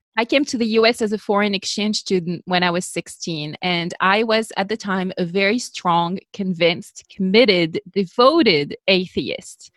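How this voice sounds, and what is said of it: French accent. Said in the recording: “You probably are hearing already that I am not American. I have an accent. I'm French, born and bred”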